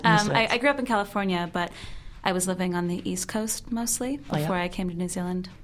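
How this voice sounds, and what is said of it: American accent. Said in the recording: “I'm originally from the States, which you can probably tell from my accent.”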